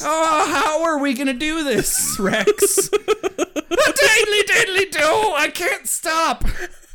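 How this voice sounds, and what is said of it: Bad fake Irish accent. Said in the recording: “speaking of bad Irish accents.”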